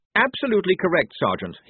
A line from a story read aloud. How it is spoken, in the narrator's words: he said brightly